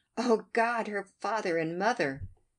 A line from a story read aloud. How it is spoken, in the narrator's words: Captain Wentworth exclaimed in the bitterest agony